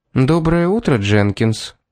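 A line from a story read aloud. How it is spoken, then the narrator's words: Calm greeting. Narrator (Russian): спокойно поздоровалась Эмили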